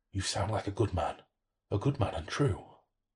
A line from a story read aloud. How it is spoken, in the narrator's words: The voice whispered